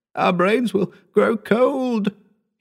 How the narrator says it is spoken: he moaned

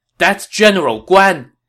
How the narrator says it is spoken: When this man saw Guan Yu, he exclaimed

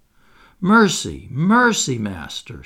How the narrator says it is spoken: she cried

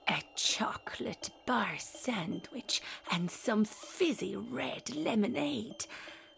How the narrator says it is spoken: whispered Didi with delight

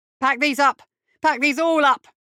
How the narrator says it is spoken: shouting

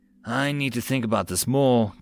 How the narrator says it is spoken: Titania sighed

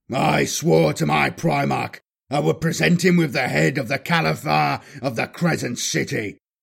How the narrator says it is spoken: the Warsmith bellowed

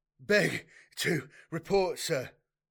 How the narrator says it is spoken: gasped the man

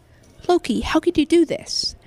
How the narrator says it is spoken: Giant exclaimed

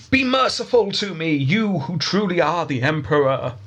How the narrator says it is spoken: Thomas cried out

